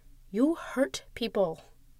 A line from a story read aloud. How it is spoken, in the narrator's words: she says, quietly